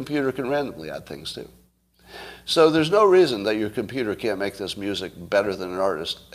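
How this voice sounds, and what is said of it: Usual voice. Nothing is said of it.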